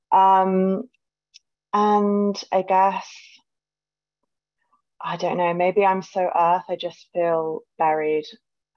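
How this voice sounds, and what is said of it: British accent. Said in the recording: “I'm calling in from the UK, as you might be able to tell from my accent.”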